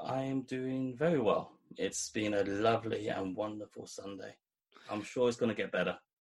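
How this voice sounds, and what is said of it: London accent. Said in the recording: “out of London ... He's got such an interesting accent”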